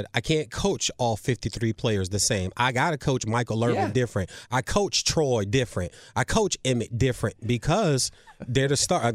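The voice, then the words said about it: Imitates another person with Southern accent. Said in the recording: “It started to build that Southern accent”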